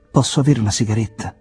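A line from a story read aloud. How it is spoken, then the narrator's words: Plain question. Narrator (Italian): chiese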